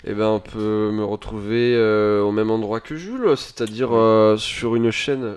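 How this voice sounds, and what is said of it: Speaks with a put-on accent. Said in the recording (French): “Je sais pas pourquoi je prends un accent.”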